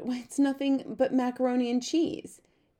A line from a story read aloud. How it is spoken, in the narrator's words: Claudia moaned